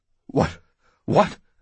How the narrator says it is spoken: Oates stammered

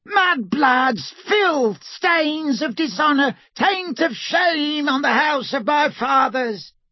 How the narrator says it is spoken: Black continued to scream

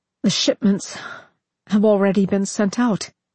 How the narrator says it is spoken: he said brokenly

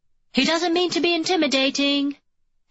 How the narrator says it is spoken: he calls out cheerfully

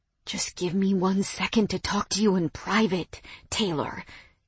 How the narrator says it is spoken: he whispered desperately

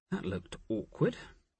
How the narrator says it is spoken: Nicola murmured to Jophiel

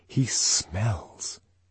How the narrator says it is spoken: she lowered her voice

